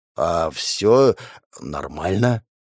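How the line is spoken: Muttering. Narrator (Russian): пробормотал он

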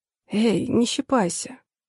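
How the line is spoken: Sleepy grumble. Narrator (Russian): Сонно проворчала подушка

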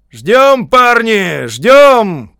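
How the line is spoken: Shouting. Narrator (Russian): крикнул седьмой роте свиные ушки

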